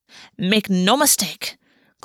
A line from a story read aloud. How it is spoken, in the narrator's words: Gulvi snapped